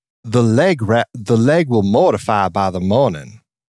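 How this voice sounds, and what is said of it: Nicole Kidman rhotic Southern accent impression. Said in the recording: “Nicole Kidman in The Beguiled ... she's trying to do a non-rhotic Southern accent, but then it becomes a rhotic Southern accent.”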